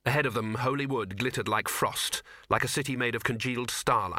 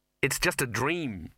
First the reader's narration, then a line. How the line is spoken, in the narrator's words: said Ginger nervously